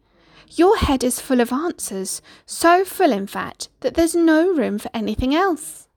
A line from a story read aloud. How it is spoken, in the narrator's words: he said timidly